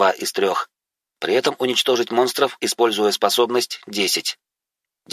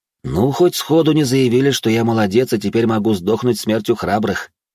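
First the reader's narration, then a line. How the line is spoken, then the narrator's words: Heavy sigh. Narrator (Russian): тяжело вздохнул я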